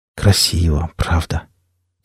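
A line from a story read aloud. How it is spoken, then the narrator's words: Quiet. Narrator (Russian): тихо проговорил Денис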